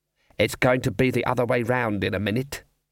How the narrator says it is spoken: he muttered

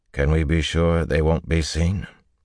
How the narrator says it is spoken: Rand replied calmly

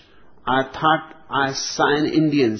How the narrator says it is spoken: said his wife

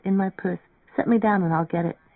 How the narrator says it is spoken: she murmured

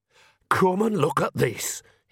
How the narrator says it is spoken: hissed Nanny

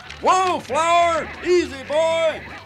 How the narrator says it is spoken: Above it all, I could hear the guy in the white beard yelling

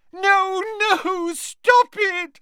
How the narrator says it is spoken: squealed Moaning Myrtle, her voice echoing loudly around the tiled room

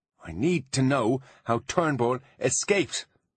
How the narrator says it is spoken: shouted Artemis, losing his cool again

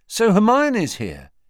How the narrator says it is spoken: he asked happily

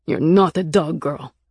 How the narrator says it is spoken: Nick said fiercely

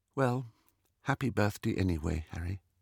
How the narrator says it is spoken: Ginny said in a flat little voice

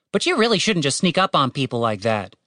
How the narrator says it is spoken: said Tim testily

